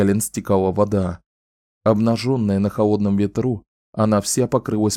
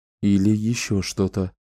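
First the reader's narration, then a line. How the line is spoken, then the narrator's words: Quiet. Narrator (Russian): тихо сказал он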